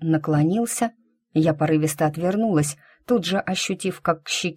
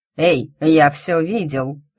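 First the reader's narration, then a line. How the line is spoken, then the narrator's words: Man laughing. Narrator (Russian): засмеялся следующий за нами мужчина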